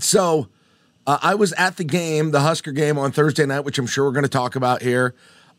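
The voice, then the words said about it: Hoarse, fading voice. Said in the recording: “my voice is apparently going”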